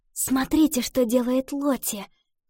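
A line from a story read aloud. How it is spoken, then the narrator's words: Whispered. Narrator (Russian): шепнула Ива девочкам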